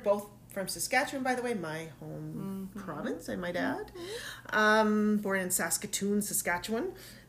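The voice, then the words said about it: Slight Canadian accent. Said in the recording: “There's my little Canadian accent there.”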